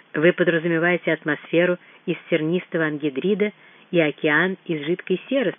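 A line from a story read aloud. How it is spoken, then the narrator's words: Plain. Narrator (Russian): спросил Мут-Анг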